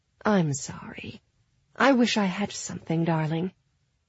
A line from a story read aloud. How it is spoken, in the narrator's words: said in an ethereally calm voice